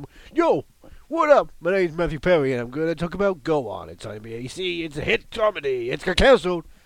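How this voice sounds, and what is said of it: American-sounding imitation of another person. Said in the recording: “why does the grime rapper not sound British here? ... he's doing a Matthew Perry impression ... he has to pretend he's American”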